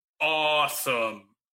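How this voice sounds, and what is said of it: Drawn-out impression of The Miz. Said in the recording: “I'm supposed to read this in a Miz voice,... if you just draw that out a bit, that is pretty close to a Miz voice.”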